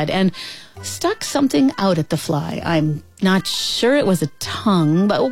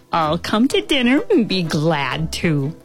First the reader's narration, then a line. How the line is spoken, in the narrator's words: answered the fly